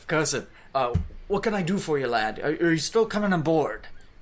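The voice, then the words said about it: Pirate accent. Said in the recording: “making him have a pirate accent”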